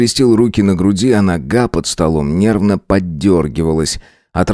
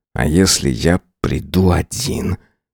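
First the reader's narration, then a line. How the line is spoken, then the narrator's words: Through clenched teeth. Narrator (Russian): процедил сквозь стиснутые зубы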